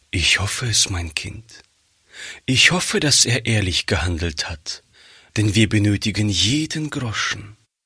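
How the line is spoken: Sighing mother. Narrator (German): sagte die Mutter seufzend

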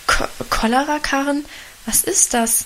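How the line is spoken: Stammering mother. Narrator (German): stammelte Mutter

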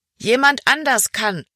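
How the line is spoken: Called back. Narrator (German): rief Emma zurück

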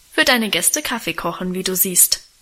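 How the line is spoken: Plain. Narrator (German): antwortete Guste

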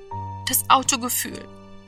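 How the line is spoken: Dull muffled murmur. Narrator (German): murmelte er dumpf

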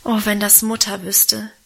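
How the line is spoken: Sighing. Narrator (German): seufzte ich

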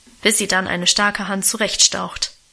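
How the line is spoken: Grumbling. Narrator (German): brummte Auguste

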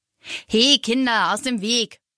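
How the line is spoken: Gruff man's grumble. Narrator (German): brummt sofort ein großer Mann

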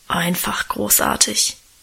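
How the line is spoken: Reverent low mumble. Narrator (German): brummelte Guste andächtig

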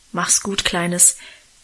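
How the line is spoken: Gruff mumble. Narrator (German): sagte Onkel Ewertsbusch

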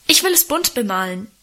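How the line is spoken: Interrupting call. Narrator (German): rief er dazwischen

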